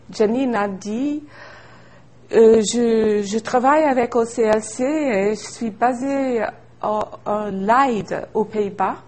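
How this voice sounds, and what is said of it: Australian-French mixed accent. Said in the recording (French): “mon accent. C'est un mélange d'australien, un accent un peu français”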